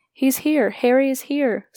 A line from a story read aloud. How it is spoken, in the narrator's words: someone called out